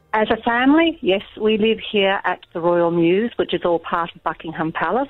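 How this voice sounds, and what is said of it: Very English accent. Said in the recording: “that's a very English accent you've got there now”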